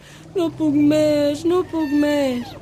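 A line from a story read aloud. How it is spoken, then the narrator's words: Groaning. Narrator (Catalan): gemegant digué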